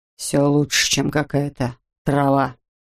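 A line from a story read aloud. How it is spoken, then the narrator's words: Grumbled. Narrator (Russian): буркнул он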